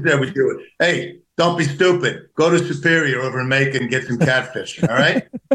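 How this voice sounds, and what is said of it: Thick New Jersey accent. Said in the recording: “Jersey. ... You don't have such a thick New Jersey accent, but you do at times”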